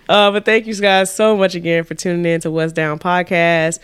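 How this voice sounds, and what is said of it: Usual voice. Nothing is said of it.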